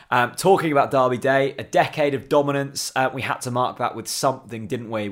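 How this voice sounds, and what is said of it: Tired, worn-out voice. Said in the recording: “I'm incredibly tired. My voice is done in.”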